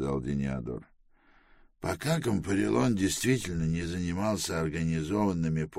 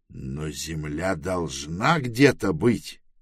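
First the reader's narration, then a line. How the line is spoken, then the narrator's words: Irritated exclamation. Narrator (Russian): раздраженно воскликнул Трэвис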